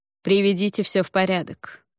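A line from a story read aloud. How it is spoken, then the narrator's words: Curt clipped speech. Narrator (Russian): отрывисто проговорила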